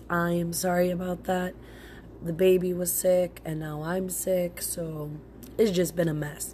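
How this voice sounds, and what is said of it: Sick-sounding voice. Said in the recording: “my voice sounds like this because I'm sick”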